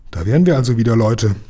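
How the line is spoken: Plain. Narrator (German): sagte Lukas

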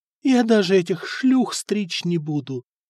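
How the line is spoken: Feverish whisper. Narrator (Russian): лихорадочно шептала

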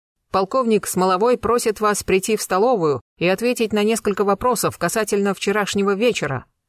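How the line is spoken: Barked. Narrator (Russian): гаркнул полицейский

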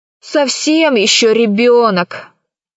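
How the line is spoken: Grumble. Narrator (Russian): проворчал Пашка

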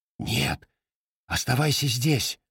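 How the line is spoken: Whispered reply. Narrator (Russian): шепнул он в ответ

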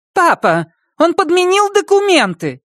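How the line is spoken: Irritated shout. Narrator (Russian): раздраженно выкрикнула Кристина

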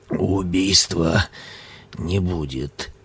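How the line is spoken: Muttered. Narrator (Russian): пробормотал

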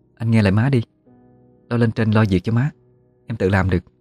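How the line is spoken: Soft, gentle. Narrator (Vietnamese): Tâm nhỏ nhẹ nói với chồng

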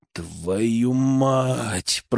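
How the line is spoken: Drawled. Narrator (Russian): протянул

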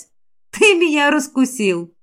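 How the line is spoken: Laughing. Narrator (Russian): Я рассмеялась, потом приняла грозный вид

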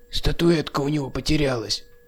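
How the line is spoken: Old man whispering. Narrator (Russian): шепнул рядом стоящий дедок Филя

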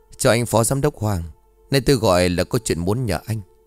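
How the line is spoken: Smiling speech. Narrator (Vietnamese): Ông khẽ mỉm cười rồi nói

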